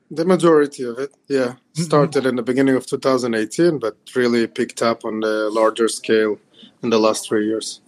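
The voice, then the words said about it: Slight foreign accent. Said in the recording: “you have a bit of an accent ... the accent is a combination of backgrounds. I was born in Ukraine, and I moved to Israel”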